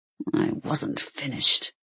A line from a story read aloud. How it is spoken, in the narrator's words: he growled